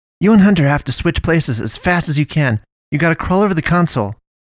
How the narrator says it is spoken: she said urgently to the pastoress

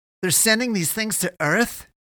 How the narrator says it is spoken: he cried

